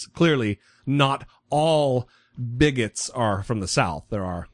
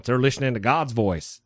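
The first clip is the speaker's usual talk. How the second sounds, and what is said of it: Put-on Southern American accent. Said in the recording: “I don't know why I'm giving them a Southern accent.”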